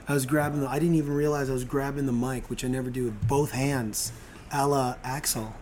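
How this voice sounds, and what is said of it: Raspy, strained voice. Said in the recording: “My voice is fucked because of singing that song ... You're a little raspy today.”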